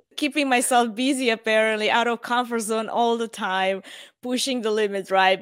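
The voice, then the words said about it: Sick, changed voice. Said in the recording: “getting myself sick and done for ... Even my voice has changed. ... I'm coughing here secretly behind the mic”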